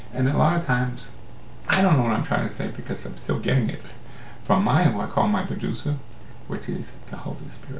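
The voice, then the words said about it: Mixed Canadian and New York accent. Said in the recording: “from Canadian to New York accent. We're not quite sure what kind of accent I am. All those years living in the Bronx, we kind of talk funny.”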